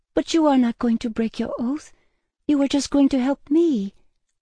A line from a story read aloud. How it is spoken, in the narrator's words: pleaded